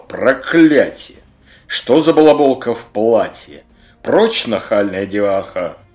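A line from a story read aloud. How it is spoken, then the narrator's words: Furious dragon's roar. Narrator (Russian): В гневе дракон грозно прорычал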